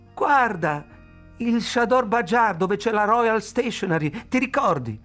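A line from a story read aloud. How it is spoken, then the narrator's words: Shouted. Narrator (Italian): lei gridò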